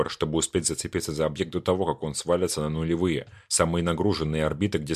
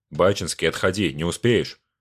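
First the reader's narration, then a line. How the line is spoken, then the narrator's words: Sharp shout. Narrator (Russian): прикрикнул пилот перехватчика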